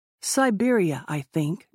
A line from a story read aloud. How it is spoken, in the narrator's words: Jim said